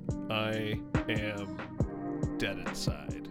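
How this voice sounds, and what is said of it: Unidentifiable put-on accent. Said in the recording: “I don't know what that accent was.”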